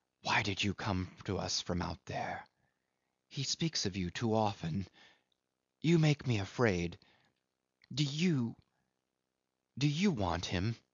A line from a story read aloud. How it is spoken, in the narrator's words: A sort of stealthy fierceness had crept into our hurried murmurs